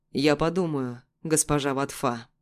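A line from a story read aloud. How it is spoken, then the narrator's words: Steely voice. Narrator (Russian): стальным голосом произносит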